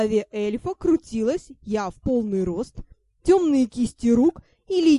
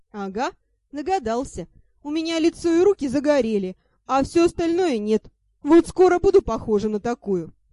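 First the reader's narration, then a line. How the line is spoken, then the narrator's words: Snorting. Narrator (Russian): фыркнула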